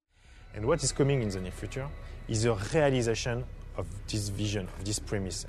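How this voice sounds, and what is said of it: Heavy French accent. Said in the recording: “heavy French accent”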